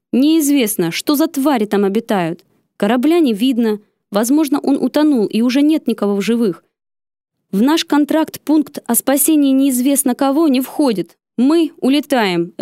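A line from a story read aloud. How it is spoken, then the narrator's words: Curt bark, brooking no objection. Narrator (Russian): рявкнул он тоном, нетерпящим возражения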